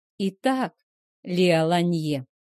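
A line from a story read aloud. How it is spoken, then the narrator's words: Slow speech. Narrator (Russian): медленно заговорил он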